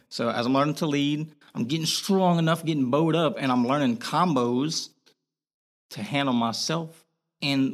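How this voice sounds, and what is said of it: Boston accent. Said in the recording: “you're having your Boston accent right now.”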